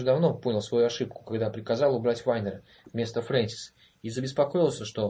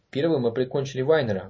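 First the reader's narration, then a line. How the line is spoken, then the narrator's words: Quick. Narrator (Russian): быстро сказал Голович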